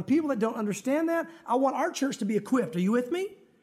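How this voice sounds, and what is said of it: Country-sounding regional accent. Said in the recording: “talking so country ... I grew up here”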